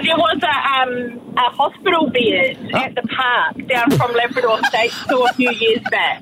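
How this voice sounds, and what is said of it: Very strong accent. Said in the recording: “You've got the strongest accent”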